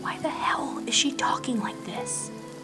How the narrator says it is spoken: She whispered

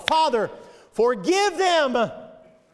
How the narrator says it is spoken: Jesus cried to his Father

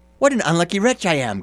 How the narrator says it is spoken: cried he

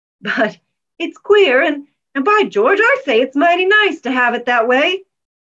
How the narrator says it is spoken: exclaimed McCarran

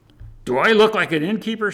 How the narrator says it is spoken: shouted an irate woman

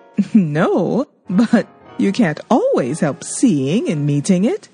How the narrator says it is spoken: laughed Miss Taylor

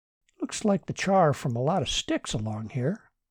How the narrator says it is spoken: said Martin

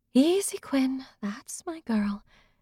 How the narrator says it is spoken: murmured into the mare's ear

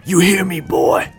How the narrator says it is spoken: rasped Miles

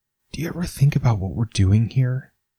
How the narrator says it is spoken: He asks softly

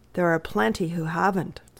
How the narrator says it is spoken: said the doctor with a sigh

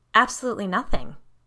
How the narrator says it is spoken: Nock responded quickly

